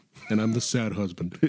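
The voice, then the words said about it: Adam Driver impression. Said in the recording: “that's a good Adam Driver”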